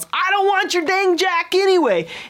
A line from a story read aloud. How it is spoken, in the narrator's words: the stranded man, all red-faced and angry, yells